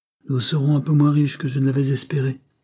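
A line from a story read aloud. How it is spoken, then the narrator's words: Resigned woman. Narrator (French): dit la créole d'un ton résigné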